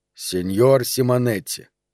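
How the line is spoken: Pointedly calm voice. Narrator (Russian): начал он, подчеркнуто спокойным голосом

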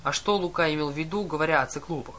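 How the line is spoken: Plain. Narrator (Russian): спросил я

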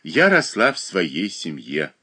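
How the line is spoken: Plain. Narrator (Russian): ответила она

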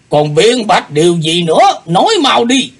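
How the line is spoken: Old man roaring question. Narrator (Vietnamese): Lão nhân gầm hỏi

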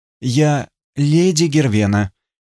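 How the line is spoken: Trembling but dignified voice. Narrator (Russian): произнесла она дрожащим голоском, но с достоинством

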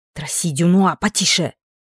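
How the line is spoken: Hissed. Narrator (Russian): прошипела я

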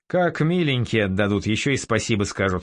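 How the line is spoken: Short chuckle. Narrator (Russian): хохотнул Андрей

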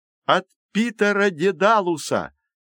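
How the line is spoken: Exclamation. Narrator (Russian): воскликнул Фред Засоня

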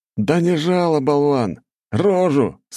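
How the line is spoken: Joking quip. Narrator (Russian): сострил 67-й

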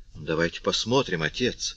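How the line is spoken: Plain. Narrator (Russian): сказала старая дева

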